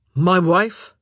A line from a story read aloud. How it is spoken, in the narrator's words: Philip practically growled